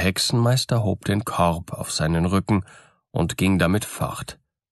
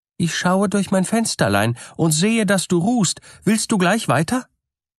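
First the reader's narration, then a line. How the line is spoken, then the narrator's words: Bride calling out. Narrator (German): die Braut rief ihm das zu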